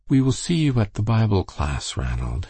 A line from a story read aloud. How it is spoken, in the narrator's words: she said kindly